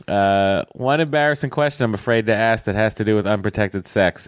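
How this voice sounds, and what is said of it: Thick put-on Boston accent. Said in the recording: “I thought I would read it with a Boston accent that is much thicker than yours”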